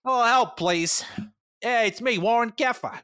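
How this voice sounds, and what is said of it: Character voice with an accent. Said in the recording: “He has like an accent now.”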